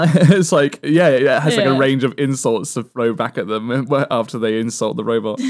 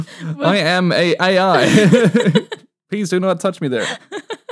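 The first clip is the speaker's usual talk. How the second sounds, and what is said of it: Robotic voice. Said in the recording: “talking like a robot”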